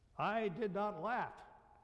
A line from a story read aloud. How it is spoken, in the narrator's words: with feeling, she shouts from the tent